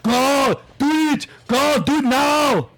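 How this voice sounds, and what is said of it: Yelling commands. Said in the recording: “stop yelling at us”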